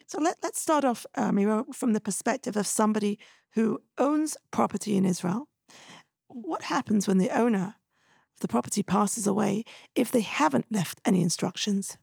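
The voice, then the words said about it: Hoarse, strained voice. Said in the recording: “I'm a little bit hoarse today. I've lost my voice.”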